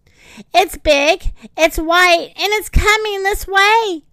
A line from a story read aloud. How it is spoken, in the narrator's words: Jetta shouted